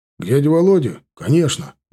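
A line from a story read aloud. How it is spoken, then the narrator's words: Exclamation. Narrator (Russian): воскликнул Марат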